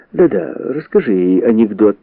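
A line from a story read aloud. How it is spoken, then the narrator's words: Cheerful reply. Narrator (Russian): весело отозвался Фред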